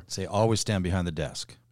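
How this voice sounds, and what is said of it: Sarcastic delivery. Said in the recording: “I was saying that sarcastically.”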